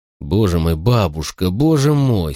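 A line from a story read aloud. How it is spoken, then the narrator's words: Groaning, choking. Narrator (Russian): стонал я, захлебываясь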